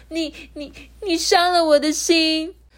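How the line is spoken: Wailing. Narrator (Chinese): 他就会哇哇大哭的说

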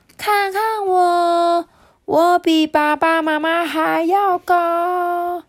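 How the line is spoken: Loud. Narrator (Chinese): 斑斑大声的说

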